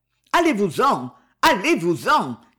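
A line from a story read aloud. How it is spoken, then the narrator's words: Impatient shout. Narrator (French): cria-t-il impatienté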